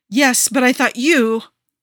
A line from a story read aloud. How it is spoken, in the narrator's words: Aisha says, and her voice is harsh